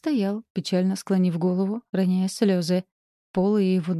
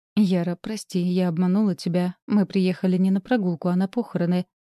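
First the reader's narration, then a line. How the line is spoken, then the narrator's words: Calm. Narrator (Russian): спокойно ответила Ринан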